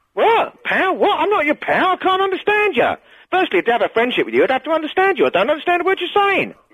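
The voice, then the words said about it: Put-on posh upper-class English accent. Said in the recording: “You sound like Noel Coward, mate. ... You started off sounding like Grant and Phil Mitchell, and you sound like Noel Coward ... sound a bit posh”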